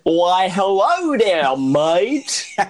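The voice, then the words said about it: Exaggerated bad British accent. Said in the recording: “Doing the, like, worst British accent you've ever heard”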